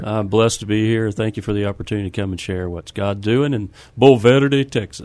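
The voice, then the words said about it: Noticeable regional accent. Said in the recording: “Ooh, nice accent... I liked how you rolled that there, too.”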